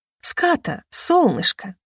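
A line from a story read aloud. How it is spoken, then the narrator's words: Coaxing, ingratiating. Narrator (Russian): вкрадчиво сказала я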